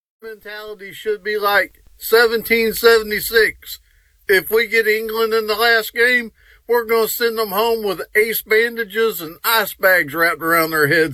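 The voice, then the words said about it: Caller with a noticeable accent. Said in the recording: “the accent makes it so much better”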